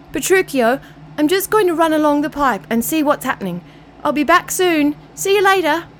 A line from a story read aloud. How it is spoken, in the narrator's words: he called out